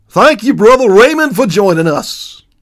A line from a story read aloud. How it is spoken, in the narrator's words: boomed Rockford